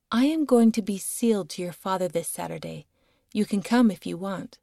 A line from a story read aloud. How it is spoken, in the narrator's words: she ... calmly said